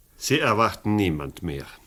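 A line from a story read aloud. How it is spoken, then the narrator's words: Plain. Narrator (German): sagte Chanz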